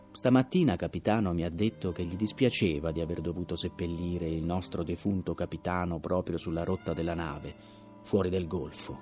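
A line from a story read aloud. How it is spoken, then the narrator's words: Shaken, even voice after pause. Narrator (Italian): era scosso da quella domanda diretta, ma dopo un breve silenzio aggiunse con voce uguale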